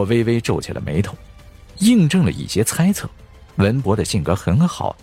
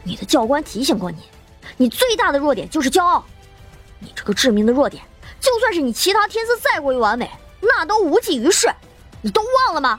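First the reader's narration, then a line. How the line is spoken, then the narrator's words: Slightly angry reminder. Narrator (Chinese): 张龙有些怒意，提醒道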